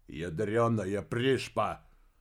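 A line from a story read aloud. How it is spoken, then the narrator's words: Loud order. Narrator (Russian): Помпилио громко распорядился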